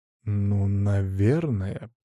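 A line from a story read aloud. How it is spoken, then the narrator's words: Drawn-out reply. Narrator (Russian): протянул я в ответ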